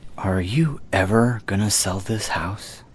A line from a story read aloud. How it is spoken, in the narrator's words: In a hushed voice, he said